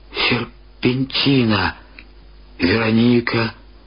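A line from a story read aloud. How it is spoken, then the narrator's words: Sighing. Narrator (Russian): вздохнул он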